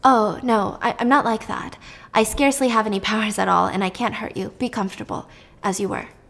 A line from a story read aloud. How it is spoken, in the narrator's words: she dropped her voice and said